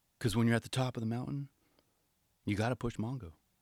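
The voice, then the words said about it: Poor impression of Rodney. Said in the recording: “my horrible Rodney impression”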